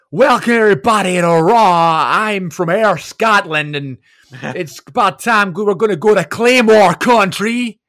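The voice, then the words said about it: Imitates another person's voice, weird accent. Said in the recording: “he has like this weird accent”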